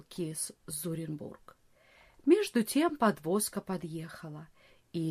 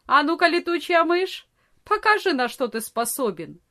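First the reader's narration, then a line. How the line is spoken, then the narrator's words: Young man shouting. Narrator (Russian): Барт, длинный молодой парень, крикнул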